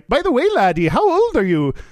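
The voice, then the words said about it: Put-on Irish accent. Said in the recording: “now without the Irish accent.”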